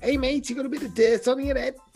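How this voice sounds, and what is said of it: Put-on Liverpool accent. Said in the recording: “just taking like Liverpool accent”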